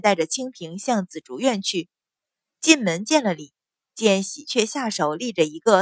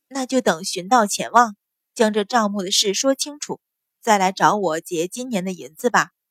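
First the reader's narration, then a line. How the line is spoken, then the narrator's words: Sighing. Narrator (Chinese): 阮云欢叹了一声，说道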